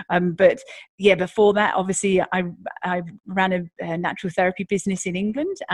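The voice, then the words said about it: British accent with slight Australian twang. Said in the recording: “a Brit who went Aussie ... the odd little twang now that you might hear in my accent”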